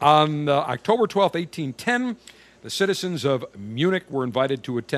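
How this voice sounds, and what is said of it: Usual voice. Nothing is said of it.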